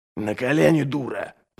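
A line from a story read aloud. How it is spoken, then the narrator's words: Hissed. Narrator (Russian): прошипел Ральф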